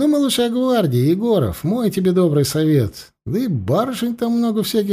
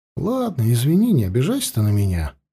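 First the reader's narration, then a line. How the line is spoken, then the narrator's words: Sighing. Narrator (Russian): вздохнул Митя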